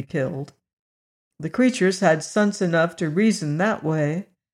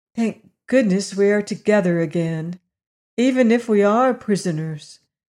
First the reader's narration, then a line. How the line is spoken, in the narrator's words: sighed the little girl